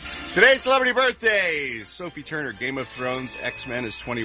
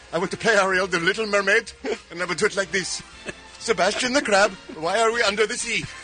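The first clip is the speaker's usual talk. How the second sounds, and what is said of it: Put-on accent. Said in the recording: “With that accent...”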